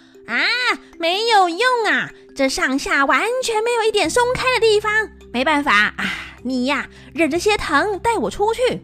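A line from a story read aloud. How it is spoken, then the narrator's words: Calling out. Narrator (Chinese): 孙悟空就叫着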